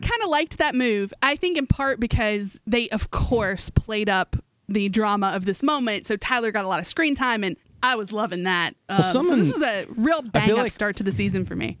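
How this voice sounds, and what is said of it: Regional home-state accent. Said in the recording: “I feel like your accent is coming out in this segment. ... I'm thinking about home. I'm sure it's there.”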